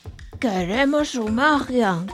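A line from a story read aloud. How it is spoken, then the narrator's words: Goblins roaring. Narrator (Spanish): bramaron los goblins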